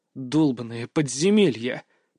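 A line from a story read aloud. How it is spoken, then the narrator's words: Growled. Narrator (Russian): прорычал я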